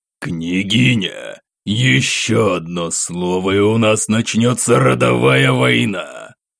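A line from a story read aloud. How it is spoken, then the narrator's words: Growled. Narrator (Russian): прорычал Светлов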